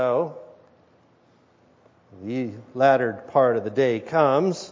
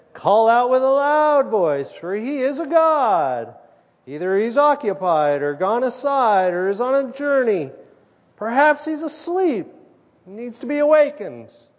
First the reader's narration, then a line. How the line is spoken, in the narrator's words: Elijah mocked them and said